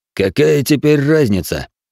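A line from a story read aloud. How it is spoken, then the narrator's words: Sighing man. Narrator (Russian): вздохнул до этого молчавший мужчина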